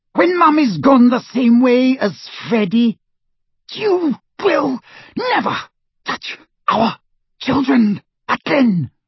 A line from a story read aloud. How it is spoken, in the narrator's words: screamed Mrs